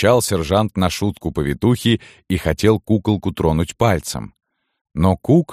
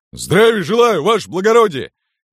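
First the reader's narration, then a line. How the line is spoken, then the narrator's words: Sudden loud bark. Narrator (Russian): Гаркнул вдруг во все горло отставной сержант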